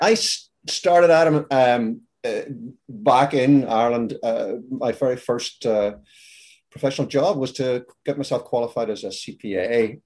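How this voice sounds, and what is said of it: Northern Irish accent, partly Americanized. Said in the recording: “Belfast, in fact. Now, Belfast is in the north of Ireland ... my accent has decided not to fully relocate. So it's sort of stuck in the middle there.”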